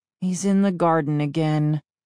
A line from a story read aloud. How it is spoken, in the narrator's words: I murmured